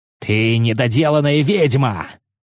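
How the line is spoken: Angry growl. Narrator (Russian): зарычал он

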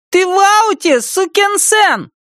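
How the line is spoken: Parting shout. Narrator (Russian): Замир напоследок крикнул

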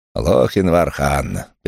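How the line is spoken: Contemptuous snort. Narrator (Russian): презрительно фыркнул Феррис

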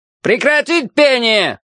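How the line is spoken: Roaring loudspeaker. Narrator (Russian): взревел динамик у потолка

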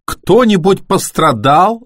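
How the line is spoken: Near-hysterical yelling. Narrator (Russian): заорал Бен почти истерически

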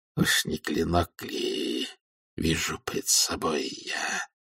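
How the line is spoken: Muttered. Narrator (Russian): пробормотал он

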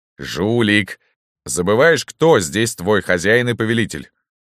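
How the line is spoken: Stern. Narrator (Russian): строго сказал Пыркин

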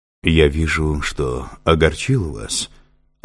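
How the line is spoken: Tender. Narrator (Russian): ласково обратился к ней Авадон

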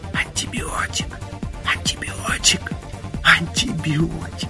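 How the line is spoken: Laughing, repeated whispering. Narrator (Russian): я смеялся и все шептал, шептал, шептал

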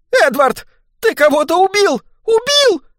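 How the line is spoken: Screaming. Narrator (Russian): завопила она

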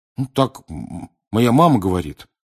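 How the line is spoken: Embarrassed babbling. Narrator (Russian): пролепетал смущенный Рон

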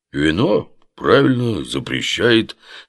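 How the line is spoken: Sleepy. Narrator (Russian): сонно кивнул будущая гроза Багдада

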